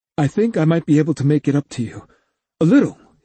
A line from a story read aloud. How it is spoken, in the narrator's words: he added quickly